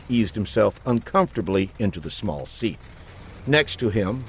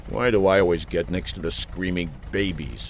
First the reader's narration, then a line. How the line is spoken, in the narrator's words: Buck muttered